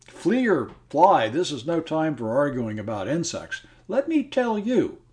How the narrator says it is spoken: Clarence interrupted him indignantly

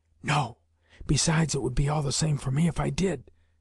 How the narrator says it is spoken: he contrived to whisper

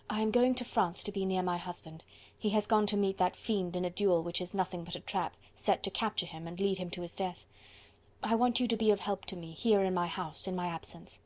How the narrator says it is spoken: said Marguerite in a hurried whisper

